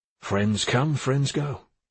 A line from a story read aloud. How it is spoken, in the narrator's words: Blomqvist said in a kind tone